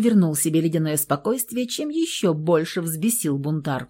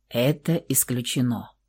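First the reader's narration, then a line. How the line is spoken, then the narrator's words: Cold, calm. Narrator (Russian): холодным, спокойным голосом сказал Михаил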